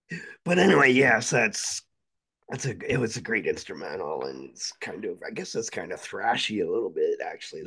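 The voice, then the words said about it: Strained, faltering voice. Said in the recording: “coughing enough air ... my voice is screwing up on me”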